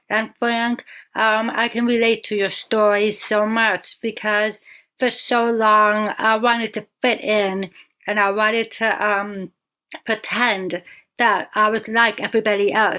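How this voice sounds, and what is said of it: Deaf accent. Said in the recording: “my deaf accent”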